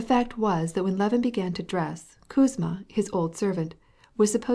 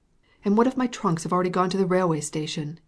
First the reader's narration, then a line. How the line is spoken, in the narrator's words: exclaimed in despair